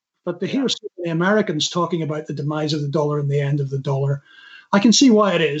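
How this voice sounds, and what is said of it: Non-American accent. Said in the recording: “If you've got an accent like mine”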